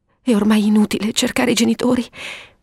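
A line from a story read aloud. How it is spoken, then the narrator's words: Lady stammering. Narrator (Italian): balbettava la signora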